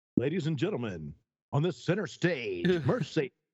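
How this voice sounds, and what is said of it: Strip club DJ announcer voice. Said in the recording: “do your voice ... I've been a good stripper DJ back in the day.”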